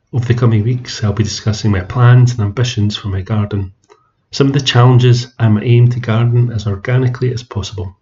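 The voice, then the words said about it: Scottish accent. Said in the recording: “as you can tell from my accent, I garden in Scotland”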